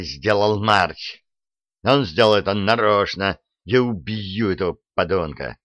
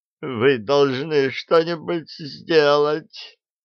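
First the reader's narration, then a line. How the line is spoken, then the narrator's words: Moaning. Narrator (Russian): застонал он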